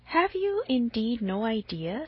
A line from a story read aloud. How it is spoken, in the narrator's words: said Mrs